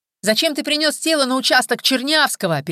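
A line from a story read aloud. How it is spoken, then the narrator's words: Mocking high-pitched voice. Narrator (Russian): передразнил тонким голосом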